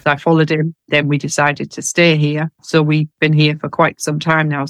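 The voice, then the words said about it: Northeast English accent. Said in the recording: “My accent is from the northeast of England”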